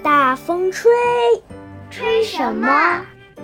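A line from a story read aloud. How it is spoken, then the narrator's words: Sprite keeps calling. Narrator (Chinese): 小精灵 继续喊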